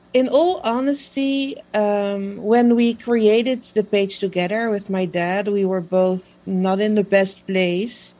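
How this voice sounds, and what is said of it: Non-native English, Dutch accent. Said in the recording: “clearly can hear from my fantastic accent ... I'm not a native English speaker. I'm based in Holland.”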